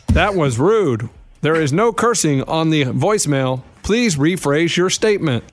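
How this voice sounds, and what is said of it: Robotic voicemail voice. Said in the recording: “Why did you get a robot voice? Because you weren't robot, and all of a sudden you go to robot.”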